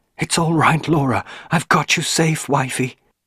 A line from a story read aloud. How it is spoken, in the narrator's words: cried